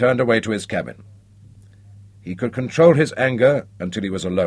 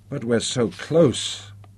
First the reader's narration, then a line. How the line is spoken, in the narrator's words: the third officer protested weakly